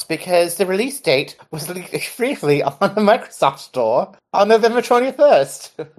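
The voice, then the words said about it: Put-on British accent. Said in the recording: “I'll say that again in my normal voice ... I meant that with much love to Adele and any of our British fans”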